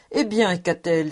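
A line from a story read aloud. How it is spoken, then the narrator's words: Exclaiming. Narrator (French): s'écria Schultz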